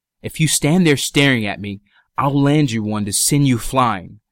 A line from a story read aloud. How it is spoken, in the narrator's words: growl